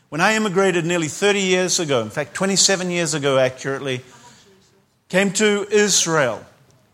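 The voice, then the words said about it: New Zealand accent. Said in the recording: “this funny Kiwi accent”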